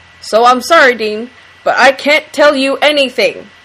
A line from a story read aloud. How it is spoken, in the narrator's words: Ash says a little too loudly, and then in a lower tone